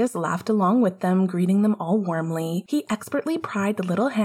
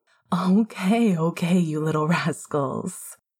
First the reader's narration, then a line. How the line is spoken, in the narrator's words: Sirius spoke up